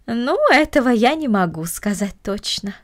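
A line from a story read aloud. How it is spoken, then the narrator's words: Plain. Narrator (Russian): ответила горничная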